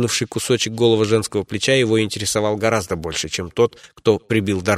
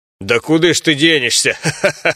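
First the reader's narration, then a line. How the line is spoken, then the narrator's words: Guard's chuckling. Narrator (Russian): Хохотнул один из стражников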